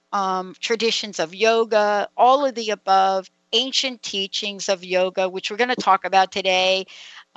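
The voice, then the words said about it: New York accent. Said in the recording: “don't you like me when I say yoga, like with my New York accent?”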